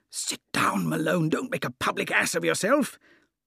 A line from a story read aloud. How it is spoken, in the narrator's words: Tarp Henry, my companion, I heard him whispering